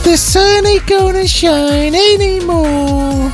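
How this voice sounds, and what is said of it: Singing in falsetto. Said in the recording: “Shall I sing falsetto for you? ... That's my falsetto.”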